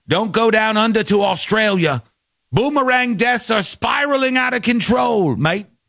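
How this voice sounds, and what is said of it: Put-on Australian accent. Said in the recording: “That's my Australian accent.”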